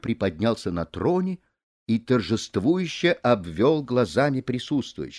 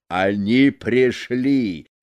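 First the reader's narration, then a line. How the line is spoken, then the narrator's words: Booming. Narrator (Russian): прогремел он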